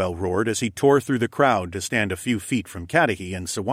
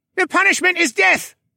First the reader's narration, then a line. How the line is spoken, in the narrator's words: some shouted